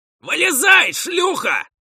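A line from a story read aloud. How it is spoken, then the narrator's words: Shout from outside. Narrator (Russian): крикнули снаружи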